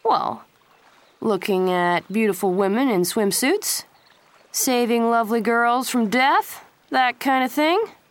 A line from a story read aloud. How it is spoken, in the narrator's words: Pacey said lazily